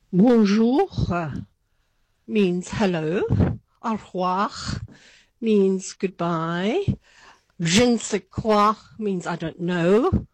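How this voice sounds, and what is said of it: English spoken in French accent. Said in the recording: “was that a really good French accent?”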